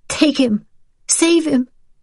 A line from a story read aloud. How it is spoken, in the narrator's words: Rachel pleaded